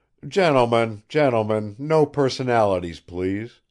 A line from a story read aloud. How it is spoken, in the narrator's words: cried Nikolai Petrovich